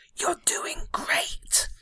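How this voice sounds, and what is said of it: Whispering. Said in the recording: “whisper”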